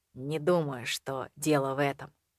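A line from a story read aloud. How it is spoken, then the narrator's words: Gentle objection. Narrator (Russian): мягко возразил он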